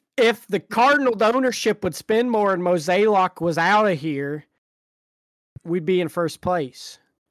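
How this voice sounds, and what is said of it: Exaggerated Midwestern regional accent. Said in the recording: “Is that your Hoosier? Is that your Hoosier accent there?... It's like my DeSoto Cardinal fan accent.”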